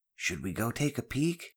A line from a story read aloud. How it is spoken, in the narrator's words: Ben whispered mischievously